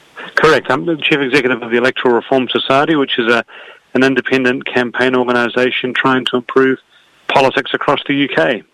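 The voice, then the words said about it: New Zealand accent. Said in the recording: “you're not from Britain, are you? I can tell by your accent ... I'm from New Zealand originally”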